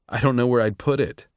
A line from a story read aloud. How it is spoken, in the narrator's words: said with a laugh